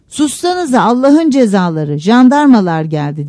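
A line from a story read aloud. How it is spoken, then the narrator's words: Shouted. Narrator (Turkish): diye bağırdı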